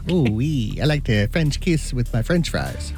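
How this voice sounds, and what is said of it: Bad put-on French accent. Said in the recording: “accent was horrible. ... Awful. ... Horrible. ... it did not sound sexy when ... said it.”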